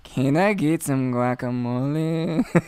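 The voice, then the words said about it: Put-on Mexican accent. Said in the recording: “master a Mexican accent ... you need to do exactly that voice ... Nailed it.”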